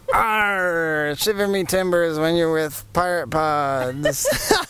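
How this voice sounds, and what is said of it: Pirate character voice. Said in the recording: “best pirate impression”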